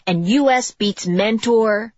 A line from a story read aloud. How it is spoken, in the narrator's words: shouted